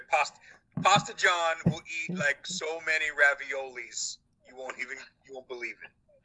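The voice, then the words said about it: Trump-like New York accent. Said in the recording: “got a little Trumpy there in your accent ... I was going to New York.”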